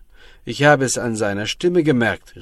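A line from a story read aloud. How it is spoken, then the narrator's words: Man calling out. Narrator (German): rief der Mann vom Dorf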